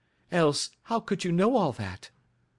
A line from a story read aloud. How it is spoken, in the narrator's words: cried